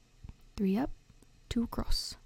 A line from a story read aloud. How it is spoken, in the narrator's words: he muttered